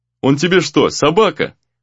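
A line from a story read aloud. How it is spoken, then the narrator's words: Laughing. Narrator (Russian): рассмеялся Гризли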